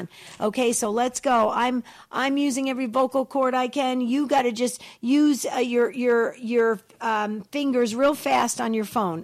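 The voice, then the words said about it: Raspy voice, talking fast. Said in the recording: “I'm coughing. ... I'm talking so fast. ... pushing through this raspy voice”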